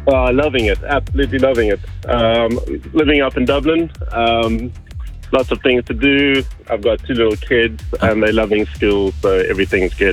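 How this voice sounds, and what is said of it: South African accent. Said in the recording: “Is that a South African accent, I hear? ... It is a South African accent, indeed.”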